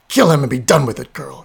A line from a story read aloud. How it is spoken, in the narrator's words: he snarled again